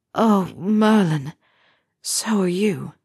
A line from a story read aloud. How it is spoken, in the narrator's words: Harry moaned back